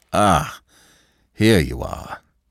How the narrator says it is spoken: he said, with a sigh of relief

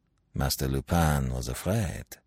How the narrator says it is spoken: he muttered, not without a certain satisfaction

